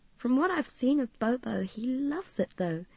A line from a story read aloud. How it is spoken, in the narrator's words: Midge chuckled softly